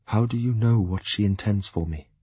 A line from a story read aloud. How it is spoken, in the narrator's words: he asked me evenly